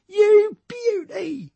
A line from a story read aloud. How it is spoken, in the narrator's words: he cried proudly